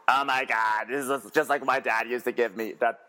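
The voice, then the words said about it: Imitates another person's voice. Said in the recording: “my Bethany impersonation. It's not very good. Not very good.”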